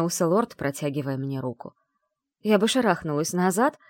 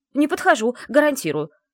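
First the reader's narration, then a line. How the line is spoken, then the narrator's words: Exclaimed. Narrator (Russian): воскликнула я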